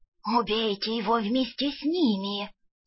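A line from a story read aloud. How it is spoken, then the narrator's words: Hissing whisper. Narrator (Russian): свистящим шепотом посоветовал неприятный тип в мантии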